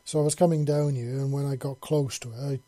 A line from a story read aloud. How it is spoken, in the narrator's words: yelled